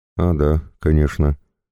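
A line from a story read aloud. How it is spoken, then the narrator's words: Timid. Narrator (Russian): робко произнес я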